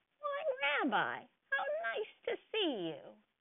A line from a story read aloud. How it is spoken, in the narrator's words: Bubba Brainer exclaimed